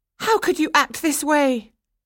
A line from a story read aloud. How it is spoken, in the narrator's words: she cried